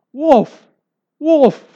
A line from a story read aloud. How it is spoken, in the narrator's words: cried